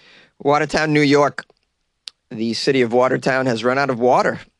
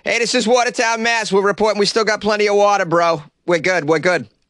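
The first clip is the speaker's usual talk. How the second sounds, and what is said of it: Put-on Boston accent. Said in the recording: “that lovely Boston accent”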